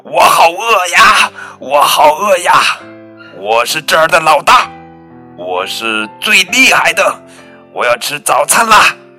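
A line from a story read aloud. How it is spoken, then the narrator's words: Loud yelling. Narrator (Chinese): 泰伦大吼大叫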